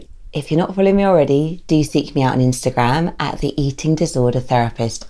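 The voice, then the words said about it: Croaky hoarse voice. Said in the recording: “my voice is still very croaky today”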